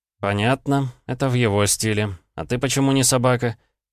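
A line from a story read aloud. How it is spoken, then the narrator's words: Tired. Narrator (Russian): Я устало потер глаза, обращаясь к Эдуарду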